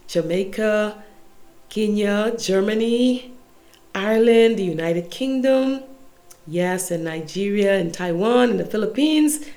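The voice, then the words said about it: Congested voice. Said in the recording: “my voice is a bit congested”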